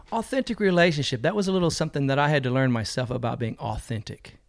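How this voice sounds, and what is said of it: American southern twang accent. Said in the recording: “The accent you'd probably be picking up mostly would be the southern accent ... I got the southern twang ... It really stands out here in New Zealand”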